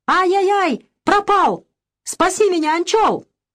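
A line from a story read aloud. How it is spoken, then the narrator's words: Wild scream. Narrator (Russian): Илья с криком дико закричал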